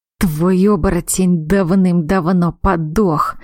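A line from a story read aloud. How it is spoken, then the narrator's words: Spiteful, through gritted teeth. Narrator (Russian): процедил он, злобно скалясь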